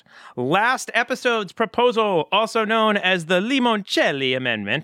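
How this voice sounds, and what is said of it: Silly put-on Italian accent. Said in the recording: “I'm going to say it with a silly Italian accent. ... That's supposed to be Italian?”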